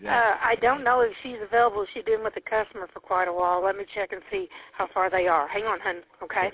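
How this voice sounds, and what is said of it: Southern Missouri accent. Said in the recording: “it's the accent that gets me ... that Southern Missouri accent”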